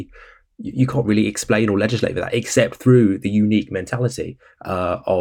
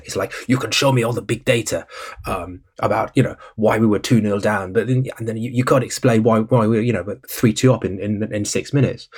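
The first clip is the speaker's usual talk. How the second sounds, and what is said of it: Pep Guardiola accent drifting back. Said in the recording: “I sort of segued from a Pep Guardiola to a Jonathan Liu accent there in the space of a few seconds”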